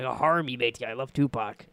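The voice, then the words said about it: Pirate character voice. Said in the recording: “the old pirate voice”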